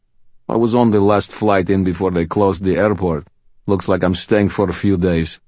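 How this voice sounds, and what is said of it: Deep voice, thick Russian accent. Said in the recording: “his voice deep, rich, and thick with a Russian accent”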